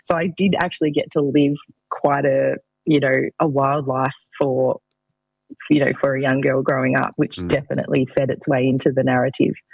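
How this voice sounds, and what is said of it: Country girl accent. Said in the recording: “I'm a country girl, as you can probably tell from my accent.”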